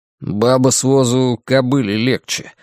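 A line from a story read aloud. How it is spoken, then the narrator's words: Gloomy grumble. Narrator (Russian): мрачно пробурчал Ларри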